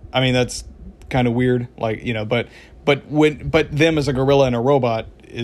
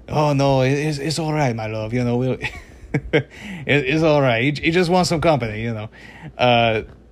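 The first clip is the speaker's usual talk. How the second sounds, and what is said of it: Poor put-on French accent. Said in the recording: “half-assed French accent”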